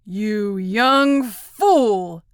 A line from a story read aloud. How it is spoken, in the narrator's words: he spluttered